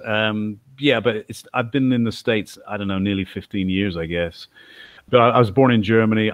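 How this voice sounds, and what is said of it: English accent with slight twang. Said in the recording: “I grew up in England, as you can probably tell from my accent... I've got a slight twang”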